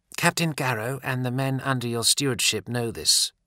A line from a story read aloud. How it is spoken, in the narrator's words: the novice translated in a clear, crisp voice